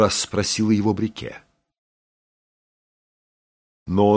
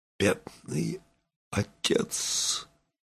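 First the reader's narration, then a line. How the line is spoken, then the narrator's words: Whispered. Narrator (Russian): губы его прошептали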